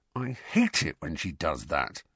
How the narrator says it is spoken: grumbled Ron

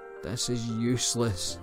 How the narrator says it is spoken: she sighed

